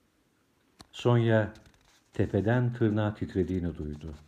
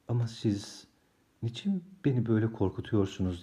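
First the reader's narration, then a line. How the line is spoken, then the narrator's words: Murmured. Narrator (Turkish): diye mırıldandı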